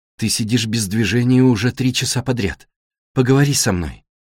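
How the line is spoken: Soft, gentle. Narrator (Russian): мягким голосом просит Элла

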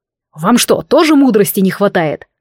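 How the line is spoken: Growled at crew. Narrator (Russian): рыкнул он на команду

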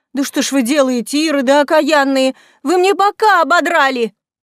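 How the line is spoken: Pained exclamation. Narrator (Russian): Закусив губу от боли, Зоя вновь воскликнула

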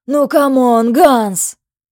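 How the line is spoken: Fat man's theatrical despairing groan. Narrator (Russian): простонал толстяк в театральном отчаянии

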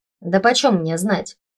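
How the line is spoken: Wry grunt. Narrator (Russian): Хмыкнул подручный

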